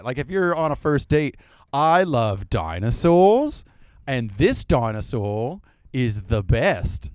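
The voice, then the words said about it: Good put-on Australian accent. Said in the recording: “You have a really good Australian accent”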